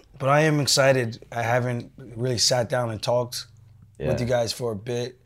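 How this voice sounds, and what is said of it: Strained, damaged hoarse voice. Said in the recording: “I'm not gonna yell. My voice is destroyed. ... it's just really hard to talk, so I can't yell.”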